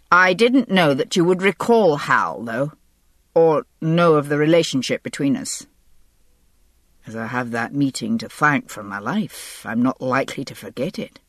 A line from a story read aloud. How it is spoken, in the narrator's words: Fraser said dryly